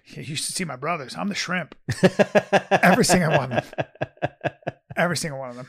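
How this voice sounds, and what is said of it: Impression of a Samoan man. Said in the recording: “this is my impression ... Of every Samoan.”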